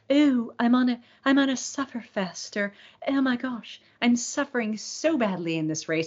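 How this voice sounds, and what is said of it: Briefly puts on an accent. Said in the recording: “I don't know why I just broke into accent to say that”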